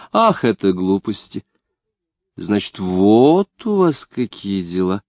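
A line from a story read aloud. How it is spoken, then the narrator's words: Drawling. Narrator (Russian): протянула она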